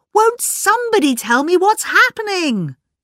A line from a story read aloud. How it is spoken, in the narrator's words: cried Philippa